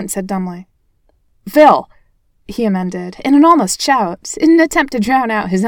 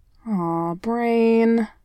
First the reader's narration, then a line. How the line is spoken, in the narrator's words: he moaned